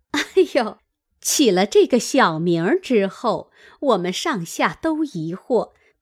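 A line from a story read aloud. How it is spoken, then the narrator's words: Laughing, group. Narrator (Chinese): 四人也笑道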